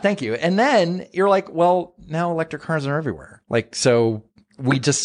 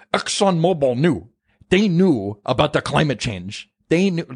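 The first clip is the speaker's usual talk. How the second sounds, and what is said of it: Imitates another person's voice. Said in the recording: “that's AOC's uh, impression ... AOC's impersonation of Bernie”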